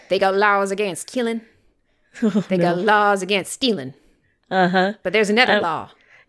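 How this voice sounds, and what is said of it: Exaggerated bad Southern US accent. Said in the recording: “It's hard not to do a terrible Southern accent”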